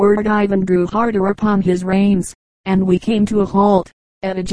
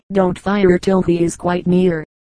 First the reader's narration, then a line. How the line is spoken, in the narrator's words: said Kinchin